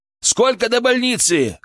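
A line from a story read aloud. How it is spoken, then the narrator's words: Shouting. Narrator (Russian): крикнул я водителю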